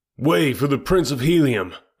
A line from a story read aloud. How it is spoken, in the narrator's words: I shouted